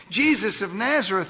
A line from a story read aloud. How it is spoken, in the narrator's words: they answered